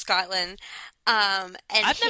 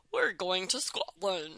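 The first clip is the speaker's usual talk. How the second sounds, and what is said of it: Bad fake Scottish accent. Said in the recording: “has a terrible British accent ... super southern person trying to do a Scottish fake accent ... it's awful”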